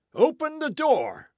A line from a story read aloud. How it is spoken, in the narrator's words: someone shrieked